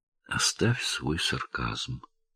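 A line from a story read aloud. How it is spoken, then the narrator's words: Calm. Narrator (Russian): спокойно сказала Келли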